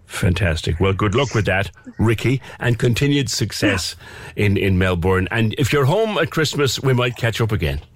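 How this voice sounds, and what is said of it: Irish accent. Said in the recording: “It was lovely to hear another Irish accent.”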